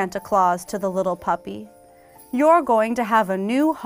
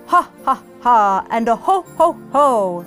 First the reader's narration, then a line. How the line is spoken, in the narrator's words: laughed Santa